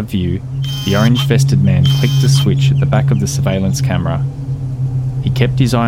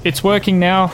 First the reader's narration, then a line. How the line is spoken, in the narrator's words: he called out